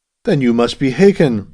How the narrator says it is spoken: exclaimed Abbot with sudden understanding

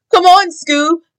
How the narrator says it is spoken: shouted Shaggy

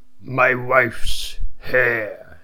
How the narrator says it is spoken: he said in a hoarse voice

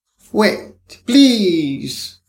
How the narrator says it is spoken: he cried

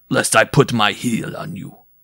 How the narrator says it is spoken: he bellowed

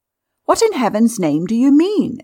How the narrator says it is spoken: exclaimed Stopford, starting up

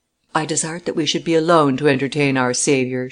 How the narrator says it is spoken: she said

